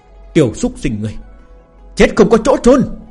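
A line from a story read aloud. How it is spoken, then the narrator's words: Furious screaming. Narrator (Vietnamese): Lão tổ hồ tộc gào thét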